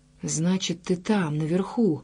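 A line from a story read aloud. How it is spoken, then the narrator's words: Defiant whisper. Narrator (Russian): шепотом обратился он к своему неизвестному противнику, словно бросая ему вызов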